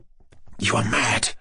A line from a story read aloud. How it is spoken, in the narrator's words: Tetsin whispered suddenly